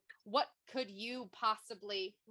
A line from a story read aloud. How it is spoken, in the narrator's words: Aelin snarled